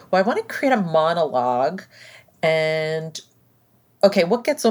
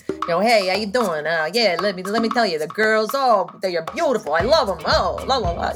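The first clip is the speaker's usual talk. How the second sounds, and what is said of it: Put-on New York accent. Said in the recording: “adopting a New York accent ... a mixture of Rodney Dangerfield and Paulie Walnuts”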